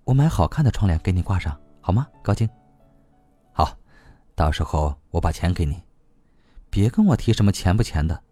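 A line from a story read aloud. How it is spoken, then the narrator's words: Gentle, tender. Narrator (Chinese): 他温柔地拉着他的手说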